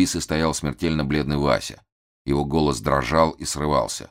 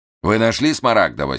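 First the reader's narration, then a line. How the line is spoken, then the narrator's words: Angry question. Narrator (Russian): сердито спросил Штерн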